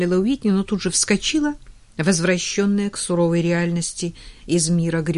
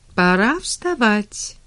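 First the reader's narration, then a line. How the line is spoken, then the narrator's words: Cheerful announcement. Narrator (Russian): весело объявила Эмили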